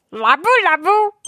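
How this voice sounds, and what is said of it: Imitates cartoon character Shin-chan's voice. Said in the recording (Korean): “짱구 성대모사로 라브라브. 한 번만 해주시면 안 될까요?”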